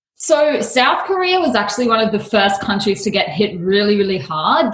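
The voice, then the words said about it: Australian accent. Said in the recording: “I detect an accent. ... I'm Aussie, actually ... I am from the land down under.”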